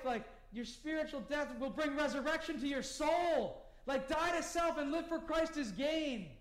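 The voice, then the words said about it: Excited yelling. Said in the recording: “I'm getting excited. I'm sorry I'm yelling.”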